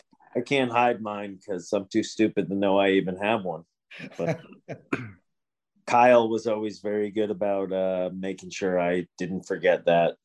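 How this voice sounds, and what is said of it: Nasal upstate New York accent. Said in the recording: “my nasally upstate New York voice”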